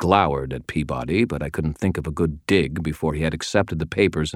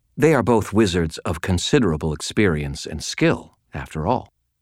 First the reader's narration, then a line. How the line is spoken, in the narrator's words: said, in a perfectly polite tone